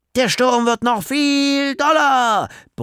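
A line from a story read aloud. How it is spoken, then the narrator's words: Bellowing. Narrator (German): brüllte Leo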